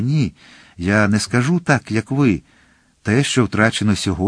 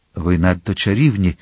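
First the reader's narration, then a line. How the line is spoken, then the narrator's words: Sad. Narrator (Ukrainian): сумно сказав Д'Артаньян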